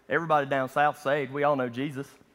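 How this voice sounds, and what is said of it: Strong Southern US accent. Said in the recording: “for a Southern guy ... That's how I really talk. I have to turn it off to talk to you guys so I don't scare you away with my accent.”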